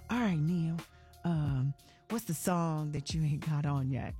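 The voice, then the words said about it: Imitates another person's voice. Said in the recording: “It's a very bad impersonation of him”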